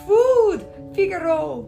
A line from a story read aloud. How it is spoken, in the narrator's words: he cried